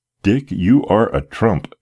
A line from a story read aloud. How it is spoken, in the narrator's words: exclaimed the gratified father